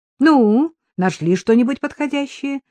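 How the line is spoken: Cheerful question. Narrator (Russian): весело спросил Виктор

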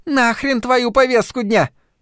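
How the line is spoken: Shrill young woman's shout. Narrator (Russian): пронзительно прокричала какая-то молодая женщина

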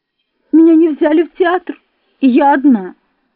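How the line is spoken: Sobbing. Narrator (Russian): отвечала я, всхлипывая снова

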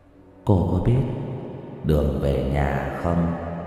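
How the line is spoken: Soft ghostly question. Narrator (Vietnamese): Bóng ma hỏi khẽ

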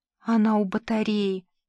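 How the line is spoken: Whisper. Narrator (Russian): прошептала Лена

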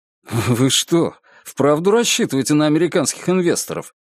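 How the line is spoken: Laughing. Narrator (Russian): рассмеялся Чип

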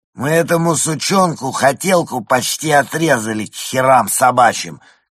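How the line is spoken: Shouted. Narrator (Russian): крикнул Рупи

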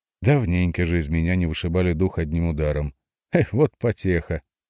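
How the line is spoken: Said with a laugh. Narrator (Russian): сказал, посмеявшись

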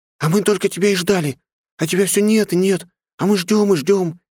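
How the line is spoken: Cheerful rapid chatter. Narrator (Russian): Весело тараторила

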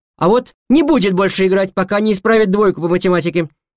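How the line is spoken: Mother's shout. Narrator (Russian): крикнула мама

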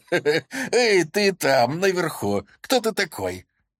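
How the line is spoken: Cheerful, hiding anxiety. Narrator (Russian): я пустил в ход все свое самообладание и, стараясь скрыть свое беспокойство, весело сказал

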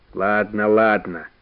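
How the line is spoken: Good-natured grumble. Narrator (Russian): добродушно заворчал Иван Гермогенович

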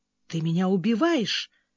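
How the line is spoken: Muttering. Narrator (Russian): пробормотал он

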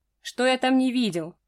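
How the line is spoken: Man's scoff. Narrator (Russian): хмыкнул мужчина

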